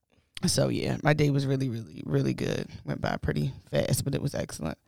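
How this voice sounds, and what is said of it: Slightly raspy voice. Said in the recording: “Went to the studio today. ... So I'm a little raspy.”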